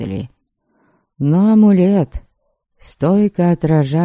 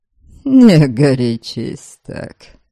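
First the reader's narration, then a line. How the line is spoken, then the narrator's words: Mocking. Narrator (Russian): Насмешливо попросил меня Норберг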